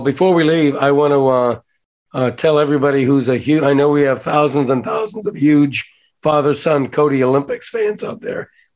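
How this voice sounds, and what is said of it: Voice cutting in and out. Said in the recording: “My voice has been in and out ... when he sounded like this”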